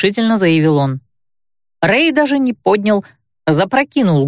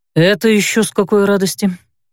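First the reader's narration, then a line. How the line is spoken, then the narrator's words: Gloomy question. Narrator (Russian): мрачно полюбопытствовал он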